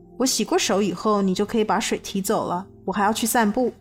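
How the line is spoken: Cold, disgusted. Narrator (Chinese): 我内心的厌恶越来越浓，冷冷地对他们说

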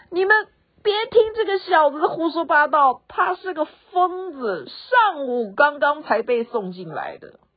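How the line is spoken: Loud. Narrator (Chinese): 病人 大声的说

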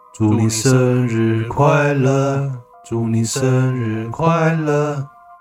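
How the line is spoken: Two voices, slow, together. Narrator (Chinese): 他们两人同时缓缓对我开口说

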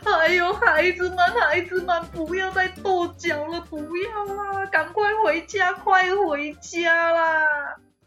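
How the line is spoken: Panicked crying. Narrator (Chinese): 鹅妈妈 慌张的起来，哭着说

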